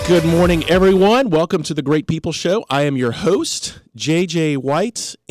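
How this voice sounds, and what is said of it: Deep, congested head-cold voice. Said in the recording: “I've been battling a head cold ... it's the greatest thing that's ever happened to my radio voice because today is Barry White Day”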